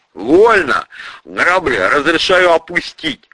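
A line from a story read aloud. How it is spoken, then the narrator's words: Giggling soldier. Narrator (Russian): Невидимый автоматчик хихикнул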